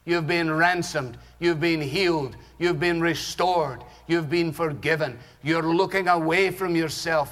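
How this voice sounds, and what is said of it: Scottish accent. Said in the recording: “Everything's better with a Scottish accent”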